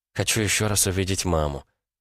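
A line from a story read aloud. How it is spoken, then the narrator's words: Quiet. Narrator (Russian): тихо произнесла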